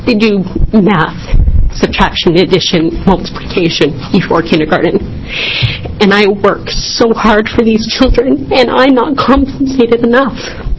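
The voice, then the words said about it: Emotional, choked-up speech. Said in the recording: “I'm sorry, I'm a little emotional”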